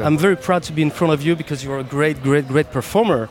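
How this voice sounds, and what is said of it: Non-native accent in English. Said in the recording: “mon accent magnifique en interview”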